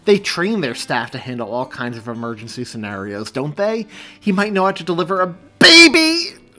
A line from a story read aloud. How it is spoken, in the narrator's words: She screamed again as another contraction overcame her with the force of a freight train